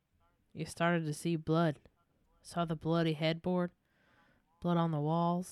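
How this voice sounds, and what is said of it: Put-on accent. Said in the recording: “I need to stop doing this accent”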